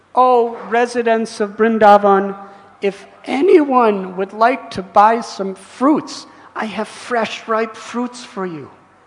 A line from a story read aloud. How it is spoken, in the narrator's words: This lady, a Pulinda, she cried out